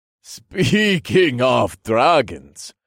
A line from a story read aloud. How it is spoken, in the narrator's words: laughed in his deep, booming voice